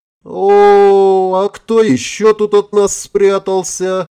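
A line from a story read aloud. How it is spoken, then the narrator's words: Playful drawl. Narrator (Russian): игриво протянул чей-то голос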